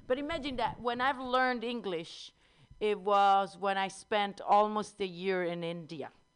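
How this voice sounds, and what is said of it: Strong Italian accent. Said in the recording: “I am from Italy. You can hear my accent... I have a strong accent”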